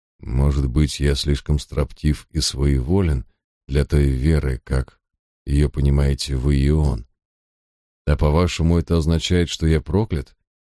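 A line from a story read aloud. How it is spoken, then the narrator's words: Quiet clarifying. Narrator (Russian): тихо уточнил я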